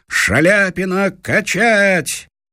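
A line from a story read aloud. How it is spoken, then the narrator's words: Shout. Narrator (Russian): Кто-то крикнул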